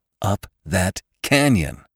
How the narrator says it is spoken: exclaimed Venters

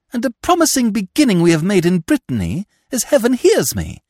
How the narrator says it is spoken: cried Philippe

